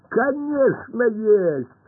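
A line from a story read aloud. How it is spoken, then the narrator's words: Laughing. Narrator (Russian): рассмеялся Пашка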